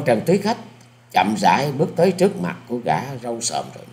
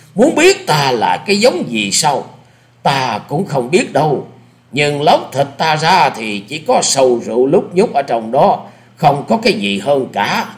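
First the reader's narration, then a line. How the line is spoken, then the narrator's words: Loud laughter. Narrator (Vietnamese): Lão cười to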